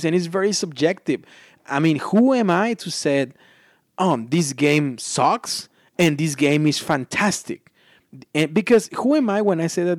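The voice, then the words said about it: Non-native English accent. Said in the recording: “my awful accent, ... English is not my primary language”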